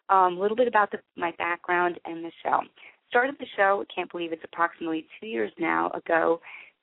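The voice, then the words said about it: Unwell-sounding voice. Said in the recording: “excuse my voice for tonight. I have been under the weather a little bit.”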